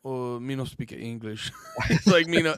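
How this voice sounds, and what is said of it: Bad Asian-accent impression of Masvidal. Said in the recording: “I don't know why I did an Asian accent. I'm not good at him. But I'm a Masvidal.”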